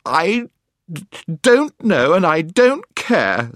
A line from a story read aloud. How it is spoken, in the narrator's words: sobbed Jill